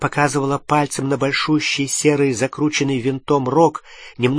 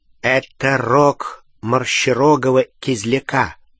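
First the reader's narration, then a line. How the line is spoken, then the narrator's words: Plain. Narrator (Russian): сказал Ксенофилиус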